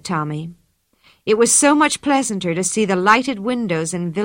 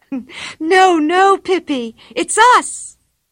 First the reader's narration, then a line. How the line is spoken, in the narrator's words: shrieked Anika